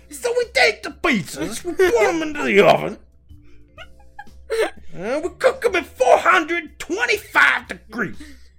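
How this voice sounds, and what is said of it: Bad Bill Cosby impression. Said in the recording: “worst fucking Bill Cosby impression ... Both, I think, were pretty bad.”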